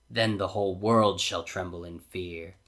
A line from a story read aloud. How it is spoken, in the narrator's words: says Jafar grimly